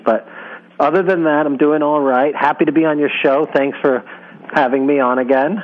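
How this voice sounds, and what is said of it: Congested, strange-sounding voice. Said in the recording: “I have a little bit of a cold I'm battling, but I'm on the better side of it. But my voice sounds strange.”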